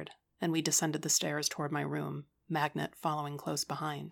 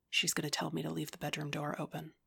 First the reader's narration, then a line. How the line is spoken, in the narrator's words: I whispered